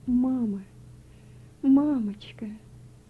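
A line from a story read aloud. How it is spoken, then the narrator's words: Sobbing. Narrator (Russian): Он все еще всхлипывал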